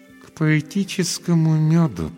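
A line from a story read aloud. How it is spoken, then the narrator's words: Through clenched teeth. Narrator (Russian): процедила она сквозь зубы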